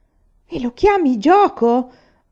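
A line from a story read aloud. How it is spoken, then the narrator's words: Shouting. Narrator (Italian): gridò Aiwan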